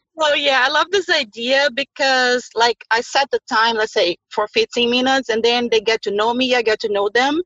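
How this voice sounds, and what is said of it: Non-native English accent. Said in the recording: “still working on my accent”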